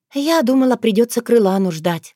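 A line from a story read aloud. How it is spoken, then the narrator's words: Breathed out. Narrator (Russian): выдохнула Таня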